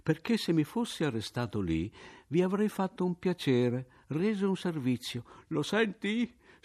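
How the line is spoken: Shrieking daughter. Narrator (Italian): strillava allora la figlia

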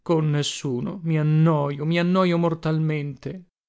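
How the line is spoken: Sighed. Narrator (Italian): sospirò egli allora

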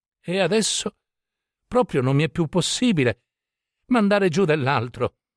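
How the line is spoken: Breathless protest, relieved sigh. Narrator (Italian): protestò Don Diego, con qualche energia, affanno, traendo un gran sospiro di sollievo

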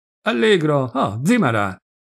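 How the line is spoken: Shouted. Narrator (Italian): Grigoli, il garzone, gli gridò

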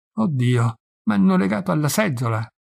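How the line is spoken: Moaning, then crying. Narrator (Italian): gemette e si mise a piangere

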